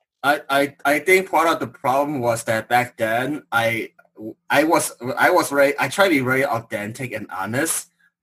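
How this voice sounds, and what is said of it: Noticeable non-native accent. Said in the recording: “people who hear an accent and think you're not smart ... you've got this accent”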